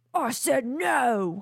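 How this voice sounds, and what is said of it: Put-on British accent. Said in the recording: “Do it in a British accent. ... Oh, that perfect. Was good.”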